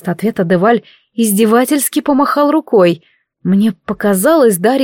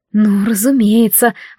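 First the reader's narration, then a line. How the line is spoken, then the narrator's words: Sigh. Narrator (Russian): вздохнула я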